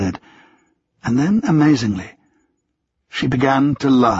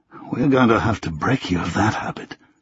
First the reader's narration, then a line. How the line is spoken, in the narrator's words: he murmured